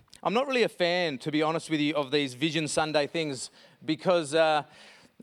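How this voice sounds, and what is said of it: Usual voice. Nothing is said of it.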